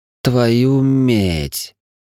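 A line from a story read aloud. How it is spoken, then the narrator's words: Loud whisper. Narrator (Russian): довольно громко прошептал Гринфилд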